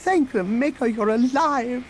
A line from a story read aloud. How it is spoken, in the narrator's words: the droid exclaimed